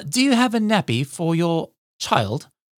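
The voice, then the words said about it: Put-on British accent. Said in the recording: “those of you who are British will get this and you might be offended over my accent”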